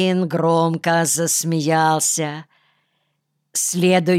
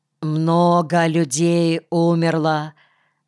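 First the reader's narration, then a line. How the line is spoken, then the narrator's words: Muffled narration. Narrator (Russian): глухо повествовал Айнеф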